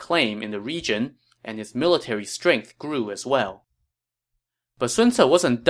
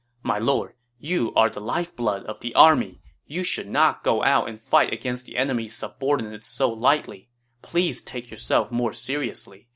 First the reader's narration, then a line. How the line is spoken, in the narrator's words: Zhang Hong said